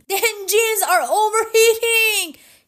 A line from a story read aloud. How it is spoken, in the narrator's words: he shouted